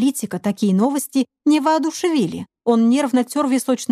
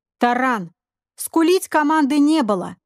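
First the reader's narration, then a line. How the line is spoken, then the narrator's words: Commanding voice. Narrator (Russian): командным голосом произнес Олег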